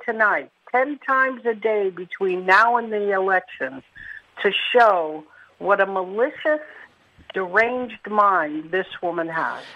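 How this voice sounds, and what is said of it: Mixed New York-Philadelphia accent. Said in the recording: “your accent's an interesting combination of New York and Philadelphia”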